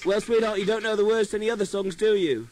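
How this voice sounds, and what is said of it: Put-on English accent. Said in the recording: “who's doing the English accent? ... Who's doing the acoustic guitar in English accent? ... I'm not really English.”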